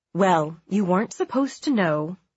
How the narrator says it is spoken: he said

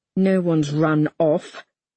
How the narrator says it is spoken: I force through gritted teeth

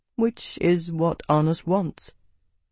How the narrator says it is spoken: Crassus said quietly

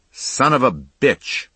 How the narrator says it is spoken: he shouted

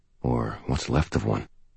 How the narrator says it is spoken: I murmured

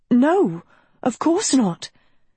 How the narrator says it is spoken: Agatha stuttered

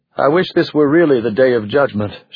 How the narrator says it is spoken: she blurted

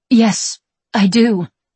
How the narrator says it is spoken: Maggie stammers, trying to sound normal

